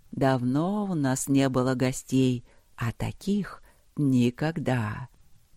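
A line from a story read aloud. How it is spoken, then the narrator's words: Slow, strained words. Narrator (Russian): Говорящая роняла слова медленно, с усилием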